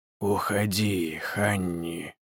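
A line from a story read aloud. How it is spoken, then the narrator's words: Hoarse, lifeless, muffled through door. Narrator (Russian): донесся из-за двери хриплый, мертвый, но очень знакомый голос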